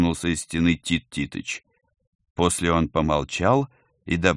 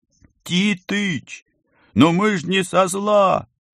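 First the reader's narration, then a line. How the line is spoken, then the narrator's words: Yelling. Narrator (Russian): заорал Колька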